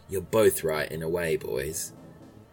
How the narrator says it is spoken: Jay smiles and says in her soft voice, which seems to be really nice, but actually means she's cross

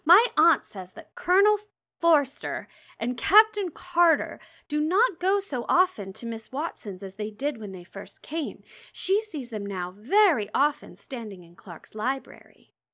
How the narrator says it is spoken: cried Lydia

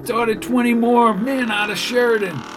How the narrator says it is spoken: shouted Baker

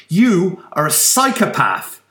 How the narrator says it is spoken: Rosa shouted

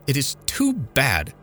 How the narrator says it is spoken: she exclaimed

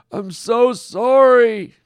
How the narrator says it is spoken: Norm wailed

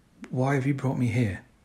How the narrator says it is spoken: I whispered

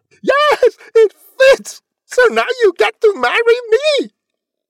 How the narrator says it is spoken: she screamed

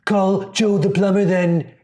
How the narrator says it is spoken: he yelled

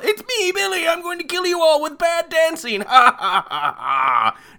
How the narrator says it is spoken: he doesn't take off his mask and yell

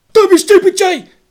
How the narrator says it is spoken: Gav snapped

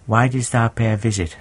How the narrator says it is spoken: asked

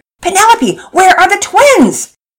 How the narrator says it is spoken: Mama Peters nearly yelled

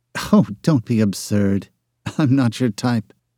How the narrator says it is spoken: murmured, her mind on something else altogether

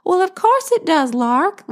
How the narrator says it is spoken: Lil squealed as she ran to Larkin's side

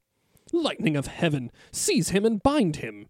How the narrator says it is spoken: cried the king, justly enraged beyond bearing

